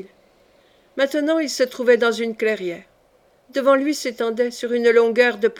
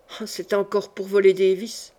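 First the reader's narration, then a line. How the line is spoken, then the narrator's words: Grumbling. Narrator (French): grommela-t-il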